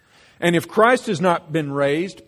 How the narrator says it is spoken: Paul says

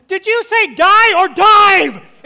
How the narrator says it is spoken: And I yell

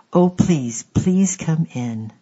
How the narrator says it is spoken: cried out aloud

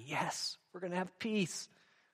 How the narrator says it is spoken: several of his riders, those who were with him, cried out gladly

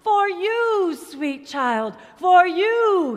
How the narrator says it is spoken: he cried

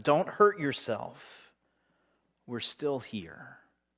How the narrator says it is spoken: Paul cries out to him

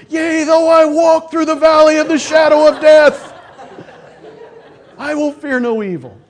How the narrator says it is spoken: I was screaming

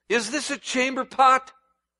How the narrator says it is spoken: screamed Polyneikes

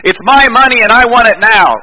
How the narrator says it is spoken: this person yells out the window

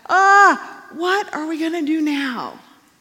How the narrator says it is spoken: Elisha's servant cried out

